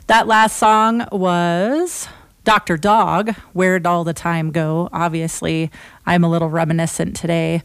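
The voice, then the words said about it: Hoarse, croaky voice. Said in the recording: “I have a frog in my throat today.”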